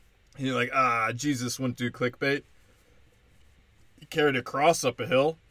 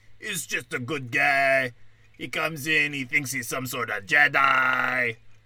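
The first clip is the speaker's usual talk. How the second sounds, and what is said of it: Put-on accent of a Star Wars character. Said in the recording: “I don't know what accent I'm doing ... it's like the guy from Star Wars who owns Anakin”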